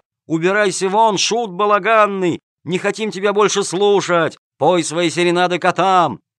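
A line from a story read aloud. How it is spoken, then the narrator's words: Crowd yelling loudly. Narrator (Russian): Зрители, как один вскочив на ноги, орали во все горло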